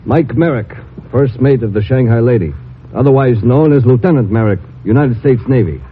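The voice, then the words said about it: Speaks with a natural accent. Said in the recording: “you can drop the accent for the time being. ... Oh, built in, huh?”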